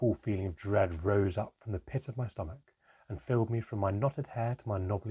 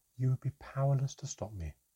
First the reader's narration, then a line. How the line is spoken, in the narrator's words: the elf said sadly